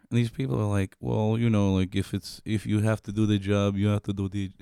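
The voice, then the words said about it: Poorly done mixed Mexican-Indian accent. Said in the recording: “I don't know what accent you were just trying to do there, but it did not come off cleanly at all. ... I was going for like Mexican, like Indian and Mexican.”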